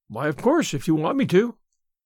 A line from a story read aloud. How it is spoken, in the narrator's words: assented Anne cheerfully